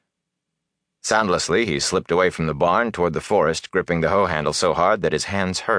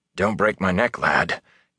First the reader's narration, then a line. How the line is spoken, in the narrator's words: came Tam's hoarse whisper